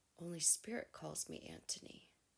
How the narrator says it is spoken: he looked shocked and whispered

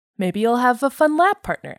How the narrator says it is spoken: Emmett said cheerfully

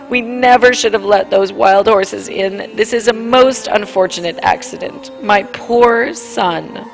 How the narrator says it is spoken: Between her sobs said

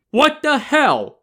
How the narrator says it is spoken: an incredulous Yang Zhi shouted

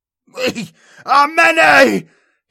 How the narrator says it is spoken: He screamed

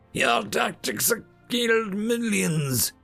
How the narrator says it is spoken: whimpered the Prime Minister

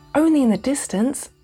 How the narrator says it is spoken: pleaded Cuddlepie

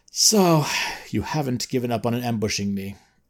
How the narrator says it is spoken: Because the third time he's quote-unquote surprised by Ozr's men jumping out of hiding, Thorth just sighs and says

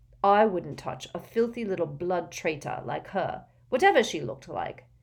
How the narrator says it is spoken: said Zabini coldly

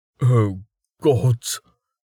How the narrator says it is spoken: Jameis gasped

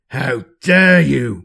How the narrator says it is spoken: Maemon roars

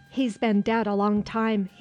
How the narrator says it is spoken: he said

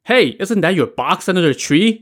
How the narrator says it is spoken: Tang Long exclaimed

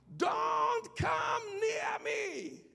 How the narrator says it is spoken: she screamed from behind

